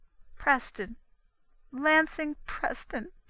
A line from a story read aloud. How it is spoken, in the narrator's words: she sobbed bitterly